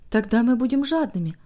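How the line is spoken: Quiet joyful. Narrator (Russian): ответила Дилли тихим и радостным голосом

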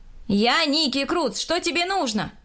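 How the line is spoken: Shouting. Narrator (Russian): крикнул я

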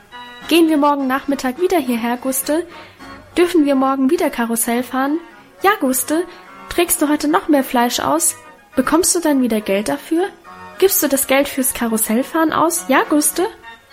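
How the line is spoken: Excited overlapping chatter. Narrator (German): So schwatzten wir aufgeregt durcheinander

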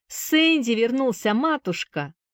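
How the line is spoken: Cheerful shout. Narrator (Russian): весело крикнул Джонни

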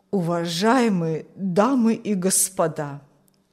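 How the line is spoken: Trembling old voice. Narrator (Russian): начал старик дрожащим голосом

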